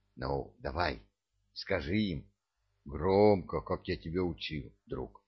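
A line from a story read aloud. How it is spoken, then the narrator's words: Whisper. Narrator (Russian): Даддио прошептал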